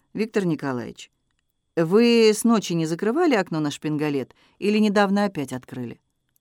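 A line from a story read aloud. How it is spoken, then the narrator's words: Sudden calm question. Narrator (Russian): Сережа вдруг спросил спокойно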